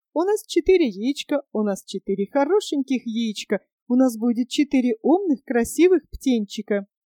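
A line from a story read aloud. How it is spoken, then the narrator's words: Cheerful singing birds. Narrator (Russian): скворец и скворчиха и весело пели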